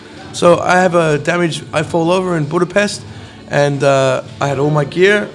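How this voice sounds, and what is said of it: Unusual, louder speaking voice. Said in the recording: “my voice is uh, different and I talk louder”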